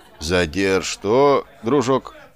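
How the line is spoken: Calm question. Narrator (Russian): спокойно переспросил Чарли

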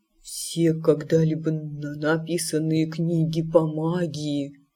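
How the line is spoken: Whisper. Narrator (Russian): прошептал он

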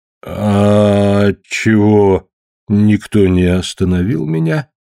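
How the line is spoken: Bewildered. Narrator (Russian): растерянно спросил

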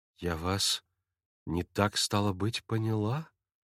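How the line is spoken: Quiet, slightly shaken. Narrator (Russian): Тихо и как бы капельку побледнев, проговорила Катерина Ивановна

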